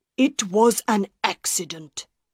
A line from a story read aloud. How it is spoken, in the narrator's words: Monsieur Armand said angrily